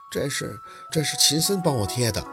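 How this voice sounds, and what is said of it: Soft, quiet reply. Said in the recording (Chinese): “小声的应着”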